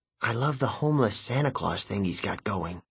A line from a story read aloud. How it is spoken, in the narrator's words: I whispered